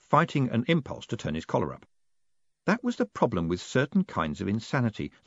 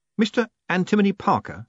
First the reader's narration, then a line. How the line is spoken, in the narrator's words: said Moist urgently